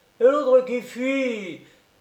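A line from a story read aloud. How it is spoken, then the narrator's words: Thief's exclamation. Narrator (French): s'écria le troisième voleur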